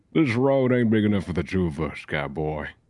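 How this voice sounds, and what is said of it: Put-on Wild West cowboy accent. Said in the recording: “Let's hear your best like Wild West accent ... cowboy”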